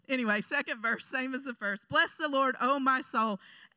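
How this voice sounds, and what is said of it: Southern American accent. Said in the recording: “Southern accent gonna get worse”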